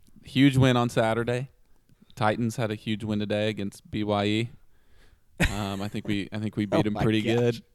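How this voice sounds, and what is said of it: Hoarse, strained voice. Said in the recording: “he lost his voice and it's completely hoarse”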